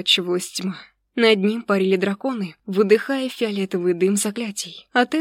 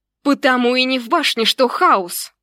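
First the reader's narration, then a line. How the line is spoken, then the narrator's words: Yelled back. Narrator (Russian): Заорала я в ответ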